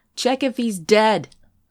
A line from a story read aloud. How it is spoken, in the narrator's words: someone called out